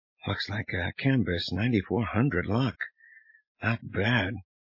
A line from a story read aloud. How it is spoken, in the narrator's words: Under her breath, she commented